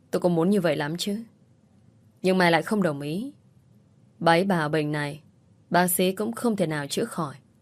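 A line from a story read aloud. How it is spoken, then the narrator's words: Helpless sighing reply. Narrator (Vietnamese): Con Thắm thở dài đầy bất lực, nó đáp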